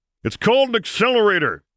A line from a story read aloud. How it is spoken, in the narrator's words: Solo growled, to yell